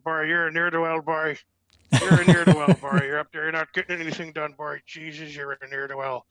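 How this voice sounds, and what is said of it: Newfoundland accent impression of grandfather. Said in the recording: “my grandparents and then my great aunts and uncles all had the Newfie accent ... such, to me, was an exotic and kind of funny sounding accent ... I would impersonate my grandfather”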